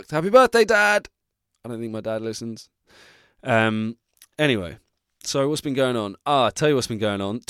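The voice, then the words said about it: Strained, damaged-sounding voice. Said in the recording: “although my voice is fucked”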